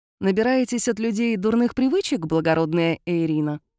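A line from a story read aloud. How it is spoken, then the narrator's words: Snort. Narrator (Russian): хмыкнул Кайлин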